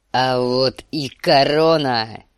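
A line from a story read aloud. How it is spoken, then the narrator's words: Roar. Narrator (Russian): взревел он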